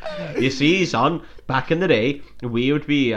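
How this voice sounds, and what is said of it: Put-on Welsh accent. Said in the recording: “Pretty good Welsh impression.”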